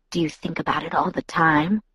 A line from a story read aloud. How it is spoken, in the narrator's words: Jacob whispered